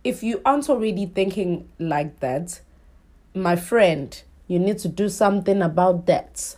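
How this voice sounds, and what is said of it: Thick put-on African accent. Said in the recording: “my African queen, she also lives in my head. Sometimes she comes out and her accent is thick.”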